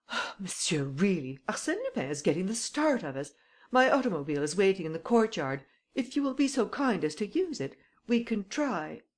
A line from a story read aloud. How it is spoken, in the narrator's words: I exclaimed